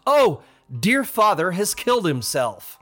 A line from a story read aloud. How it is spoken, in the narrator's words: when he saw the horrible state of body cried out